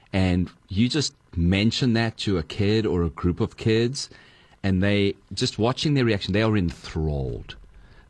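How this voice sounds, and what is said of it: Foreign accent. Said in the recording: “You ain't from here ... can I just borrow your accent ... You just make it sound so amazing.”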